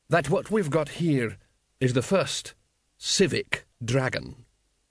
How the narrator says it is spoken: said the assassin slowly

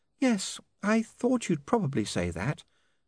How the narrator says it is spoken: said sadly

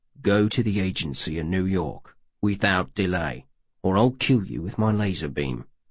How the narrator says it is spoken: one of the four footmen said distinctly and grimly

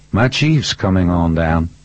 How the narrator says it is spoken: said

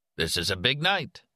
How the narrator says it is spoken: Arnie said

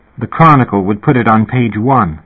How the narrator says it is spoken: Kirsten said, in a solemn tone

